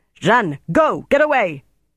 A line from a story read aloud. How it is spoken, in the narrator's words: he shouted